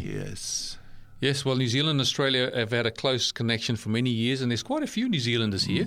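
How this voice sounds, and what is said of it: South African accent. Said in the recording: “my accent gives away that I'm South African born”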